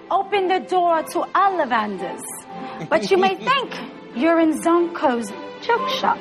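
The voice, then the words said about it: Bad put-on British accent. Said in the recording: “this little horrible British accent that is so sad ... I don't care how awful my accent is”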